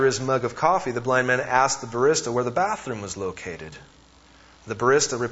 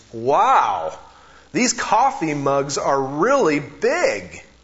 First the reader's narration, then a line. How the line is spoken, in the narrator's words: he exclaimed